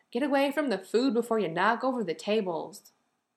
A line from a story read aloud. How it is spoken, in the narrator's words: Kim shouted sharply